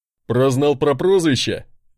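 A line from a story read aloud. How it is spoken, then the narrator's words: Porter chuckling. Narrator (Russian): хохотнул мой носильщик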